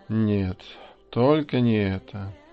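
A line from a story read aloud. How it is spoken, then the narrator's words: Quiet moan. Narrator (Russian): тихо простонал Луис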